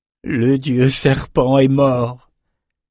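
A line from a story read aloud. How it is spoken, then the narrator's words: Looter moaning. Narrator (French): gémit un pillard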